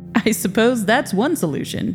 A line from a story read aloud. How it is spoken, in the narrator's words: Victor said with a laugh